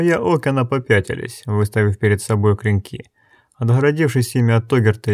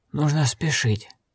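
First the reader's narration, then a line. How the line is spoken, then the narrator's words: Hissing, approaching. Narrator (Russian): шипел, надвигаясь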